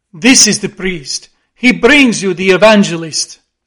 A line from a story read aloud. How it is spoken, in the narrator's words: said Don Sebastian gravely